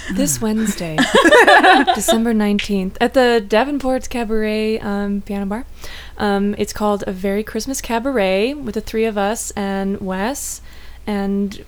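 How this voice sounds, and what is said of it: Calm, measured public-radio announcer voice. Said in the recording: “I'm going to use my NPR voice.”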